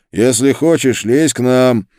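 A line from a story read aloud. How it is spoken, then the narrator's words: Shouted call. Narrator (Russian): сказал, крикнул ему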